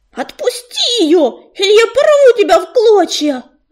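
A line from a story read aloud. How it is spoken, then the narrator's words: Shrieking threat. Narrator (Russian): завизжал он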